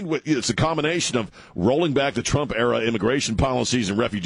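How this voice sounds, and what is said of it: Usual voice. Nothing is said of it.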